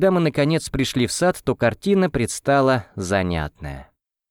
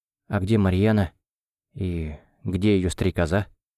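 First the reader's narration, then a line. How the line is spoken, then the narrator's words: Quiet question. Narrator (Russian): тихо спросил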